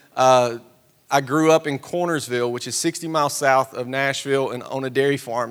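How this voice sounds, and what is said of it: Tennessee Southern accent. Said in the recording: “in case you can't tell from the accent, born and raised Tennessee”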